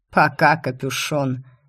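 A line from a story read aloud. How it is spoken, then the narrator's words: Snorting. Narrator (Russian): Хмыкнул Закери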